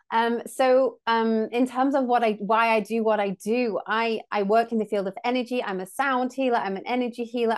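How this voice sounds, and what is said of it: English accent. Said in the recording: “as you can maybe tell from my accent, I'm based over in England, in the UK”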